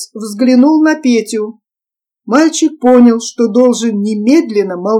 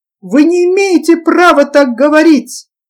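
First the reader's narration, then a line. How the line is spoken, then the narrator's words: Hoarse, feigned indignant yell. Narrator (Russian): заорал Петя сипнущим голосом, и яркий румянец лживого негодования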